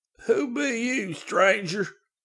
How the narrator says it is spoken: the old man wheezed out

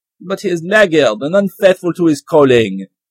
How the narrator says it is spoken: answered the prince sternly

